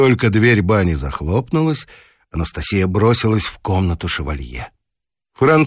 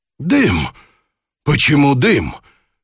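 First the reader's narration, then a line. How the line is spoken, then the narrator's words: Startled exclamation. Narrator (Russian): воскликнул шевалье, когда жаркий пар окутал его с головы до ног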